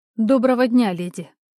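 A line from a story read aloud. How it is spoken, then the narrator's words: Cold voice. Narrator (Russian): внутри разлилась давно забытая уверенность, голос звучал совсем холодно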